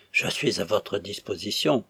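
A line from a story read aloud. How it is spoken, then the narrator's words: Increasingly anxious murmur. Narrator (French): murmura l'abbé Chevance, de plus en plus inquiet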